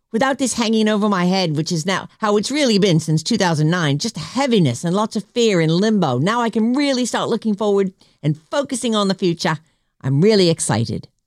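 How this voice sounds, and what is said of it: Put-on Australian accent. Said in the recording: “Love your Australian accent.”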